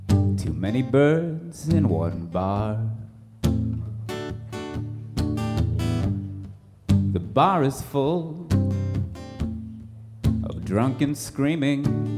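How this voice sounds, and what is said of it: Sung imitation of another person's voice. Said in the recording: “my Bill Callahan impression ... a Bill Callahan tribute cover”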